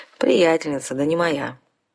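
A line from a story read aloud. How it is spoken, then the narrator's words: Sighing vampire. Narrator (Russian): вздохнул вампир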